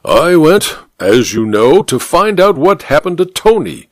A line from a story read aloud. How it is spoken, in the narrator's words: said the judge through gritted teeth